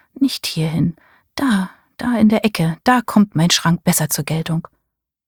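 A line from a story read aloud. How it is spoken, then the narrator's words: Murmured. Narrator (German): murmelte sie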